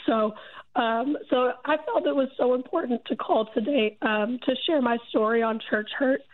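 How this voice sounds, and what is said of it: Rough, congested voice. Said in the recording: “I'm sorry. My voice sounds so terrible. ... I'm getting over a cold.”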